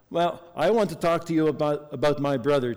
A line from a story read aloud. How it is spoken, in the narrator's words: Tess answered back in the same annoyed tone